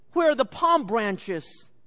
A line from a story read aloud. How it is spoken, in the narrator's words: He exclaimed